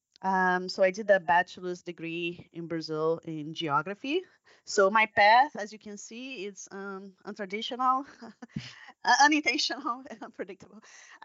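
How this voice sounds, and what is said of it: Brazilian accent. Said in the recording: “I'm Brazilian. That's where my accent comes from.”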